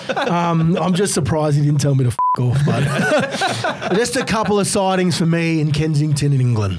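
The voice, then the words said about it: Australian accent. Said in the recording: “continued to tell him that I was from Australia... I think you could tell by my accent.”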